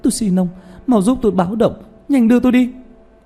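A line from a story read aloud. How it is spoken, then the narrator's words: Frightened cry. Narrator (Vietnamese): nàng sợ hãi kêu lên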